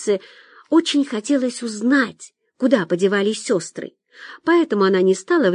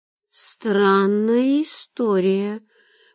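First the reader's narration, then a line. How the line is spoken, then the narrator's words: Drawled. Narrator (Russian): протянула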